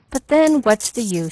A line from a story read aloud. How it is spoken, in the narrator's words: sighed